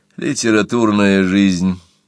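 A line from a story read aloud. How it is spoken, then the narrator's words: Sighed. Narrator (Russian): вздохнул Вилли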